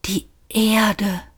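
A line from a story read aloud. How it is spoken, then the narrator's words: Whispered. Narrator (German): flüsterte Arthur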